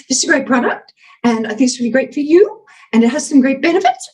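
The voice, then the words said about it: Uptalk, pitch rising at sentence ends. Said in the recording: “UpTalk, where you're going up at the end ... you're going up at the end of every sentence, very annoying”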